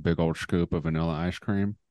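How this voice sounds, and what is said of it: Put-on accent. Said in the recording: “we say it with that accent every time”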